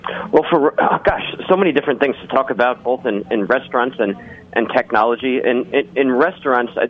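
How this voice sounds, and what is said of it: Rich, polished radio voice. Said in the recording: “a really good radio voice”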